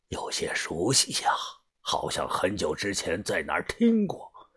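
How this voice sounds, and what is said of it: Quiet, hushed voice. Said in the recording (Chinese): “小声的”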